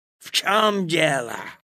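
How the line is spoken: Angry question. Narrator (Russian): злобно спросил он

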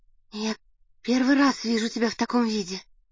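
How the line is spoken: Timid. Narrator (Russian): робко сказала Надя

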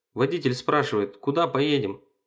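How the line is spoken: Shout. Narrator (Russian): крикнул он мне

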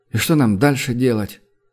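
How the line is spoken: Calm explanation. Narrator (Russian): Основин уже спокойно начал объяснять

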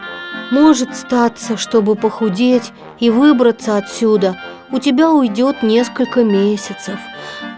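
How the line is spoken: Sighing. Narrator (Russian): вздохнул

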